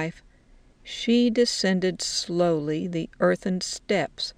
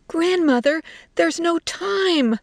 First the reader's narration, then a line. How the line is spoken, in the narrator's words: Little Pig's wife screamed